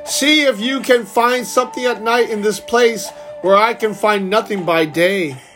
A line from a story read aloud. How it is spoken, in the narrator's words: burst out laughing and said